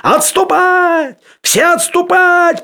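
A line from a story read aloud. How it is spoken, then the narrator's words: Distant shout. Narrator (Russian): прокричал он уже издалека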